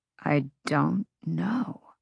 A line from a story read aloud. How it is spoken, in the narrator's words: Rune said quietly